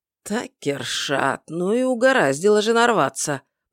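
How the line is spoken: Muttering. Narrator (Russian): пробормотал Ваконр

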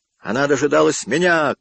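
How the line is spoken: Angry shout. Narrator (Russian): кричал он гневно

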